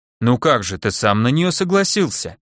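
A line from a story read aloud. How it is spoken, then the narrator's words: Indignant reply. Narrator (Russian): возмущенно ответил голос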